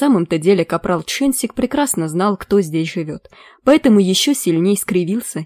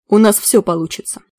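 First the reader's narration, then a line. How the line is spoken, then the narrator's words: Grumbling. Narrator (Russian): проворчал капрал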